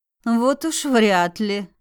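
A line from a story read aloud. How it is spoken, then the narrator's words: Skeptical snort. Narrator (Russian): хмыкнула я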